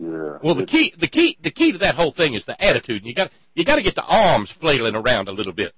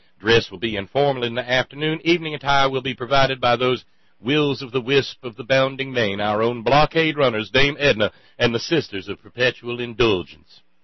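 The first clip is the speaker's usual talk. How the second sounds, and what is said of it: Aristocratic Charleston Southern accent. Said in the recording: “You have the Charleston accent down. That's the aristocratic Charleston accent. it's different than the accent where I am.”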